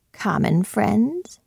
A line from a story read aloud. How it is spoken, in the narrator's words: echoed Hyde, a little hoarsely